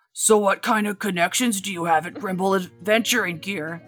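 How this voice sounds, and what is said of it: Put-on Bigfoot character voice. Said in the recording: “I'll try to do my best Bigfoot voice.”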